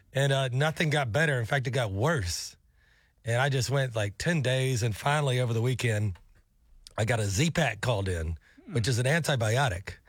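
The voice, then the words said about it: Messed-up, unwell-sounding voice. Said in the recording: “I know my voice is still messed up”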